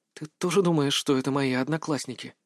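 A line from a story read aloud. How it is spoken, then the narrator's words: Near-whispered question. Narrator (Russian): чуть ли не шепотом спросила у меня Ханака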